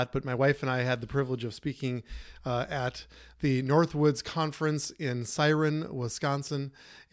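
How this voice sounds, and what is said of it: Tired, scratchy voice. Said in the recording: “My voice is a little tired and scratchy”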